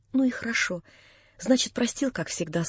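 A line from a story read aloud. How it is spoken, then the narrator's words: Smiling through tears. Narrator (Russian): сказала она, улыбаясь сквозь слезы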